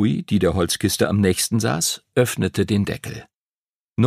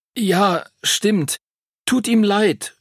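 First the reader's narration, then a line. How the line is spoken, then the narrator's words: Stammering. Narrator (German): stotterte Henry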